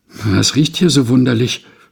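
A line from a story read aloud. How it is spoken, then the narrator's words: Fearful question. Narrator (German): fragten sie ängstlich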